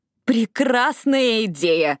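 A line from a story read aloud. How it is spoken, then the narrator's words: Joyful reply. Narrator (Russian): радостно откликнулась Эшли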